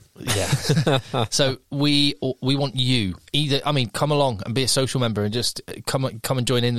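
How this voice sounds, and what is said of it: Usual voice. Nothing is said of it.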